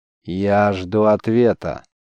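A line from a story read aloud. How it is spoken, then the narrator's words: Commanding demand. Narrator (Russian): повелительным тоном потребовал гость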